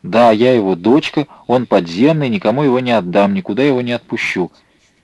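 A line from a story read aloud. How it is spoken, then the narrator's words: Loud and defiant. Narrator (Russian): Маша громко с вызовом произнесла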